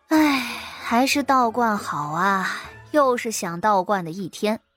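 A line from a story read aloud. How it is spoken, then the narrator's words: Long wistful sigh. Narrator (Chinese): 谢桥悠悠的叹了口气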